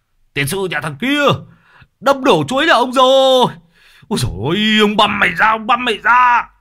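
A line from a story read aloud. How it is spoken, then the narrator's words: Angry man half-shouting. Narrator (Vietnamese): ông chủ vườn chuối nói như hét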